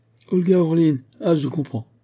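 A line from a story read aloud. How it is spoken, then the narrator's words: Hearty laughter. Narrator (French): fit Batourov en riant de si bon cœur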